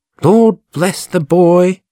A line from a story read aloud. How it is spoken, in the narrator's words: exclaimed my sister